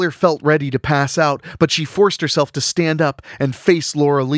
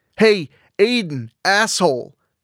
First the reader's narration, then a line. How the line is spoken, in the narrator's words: Taylor called out